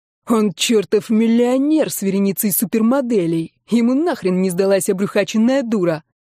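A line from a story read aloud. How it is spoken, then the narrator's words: Growled. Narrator (Russian): Прорычал он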